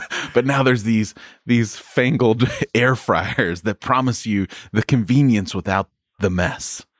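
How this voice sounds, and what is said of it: Weird put-on accent. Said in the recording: “I'm going into a weird accent”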